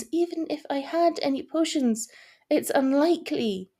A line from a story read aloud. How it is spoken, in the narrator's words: sighed